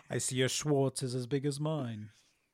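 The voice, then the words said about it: Imitates another person's voice. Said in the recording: “my Rick Moranis impersonation ... You nailed it. You nailed it.”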